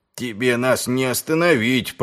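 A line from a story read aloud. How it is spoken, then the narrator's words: Grumbled. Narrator (Russian): пробурчал человек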